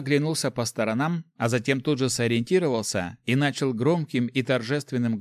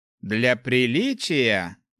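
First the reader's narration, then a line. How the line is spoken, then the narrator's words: Thoughtful. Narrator (Russian): задумчиво произнес Руди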